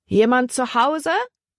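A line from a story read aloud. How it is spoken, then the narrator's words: Calling out. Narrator (German): rief Libby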